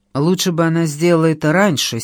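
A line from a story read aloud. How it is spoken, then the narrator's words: Angry reply. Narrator (Russian): сердито ответила я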